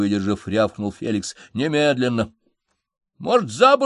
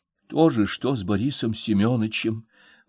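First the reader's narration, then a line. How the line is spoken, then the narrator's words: Barely audible whisper. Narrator (Russian): прошептала Надежда Николаевна, еле слышно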